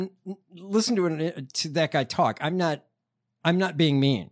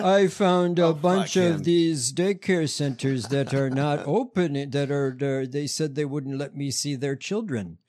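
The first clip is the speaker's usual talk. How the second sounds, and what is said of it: Imitates another person's voice. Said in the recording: “That's a damn good imitation of how he talks.”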